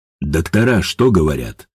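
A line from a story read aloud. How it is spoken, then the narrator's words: Calm question. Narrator (Russian): спокойно поинтересовался Бессонов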